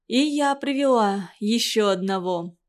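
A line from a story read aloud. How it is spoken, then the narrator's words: Timid whisper. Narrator (Russian): робко прошептала она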